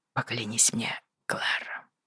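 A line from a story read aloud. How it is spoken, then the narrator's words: Hoarse command. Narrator (Russian): велел он сипло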